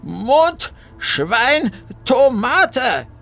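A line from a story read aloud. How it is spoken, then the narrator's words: Loud. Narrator (German): sagte Bertha laut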